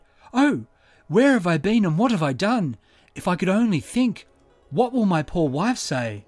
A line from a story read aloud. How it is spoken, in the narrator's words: Bertie collapsed and cried